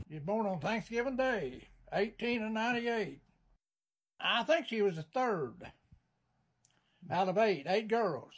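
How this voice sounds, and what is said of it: Appalachian accent and dialect. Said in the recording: “the Appalachian accent and dialect of my grandfather”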